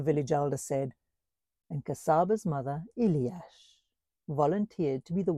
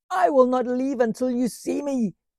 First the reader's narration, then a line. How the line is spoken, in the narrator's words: she shouted until her voice was hoarse